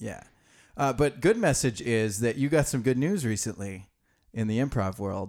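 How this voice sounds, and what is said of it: Usual voice. Nothing is said of it.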